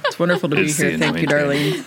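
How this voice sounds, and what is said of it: Deliberately deep voice. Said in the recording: “they're using their deep voices now ... I'm going to use my deep voice now.”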